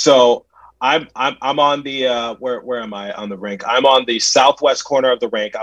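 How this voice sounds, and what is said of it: Usual voice. Nothing is said of it.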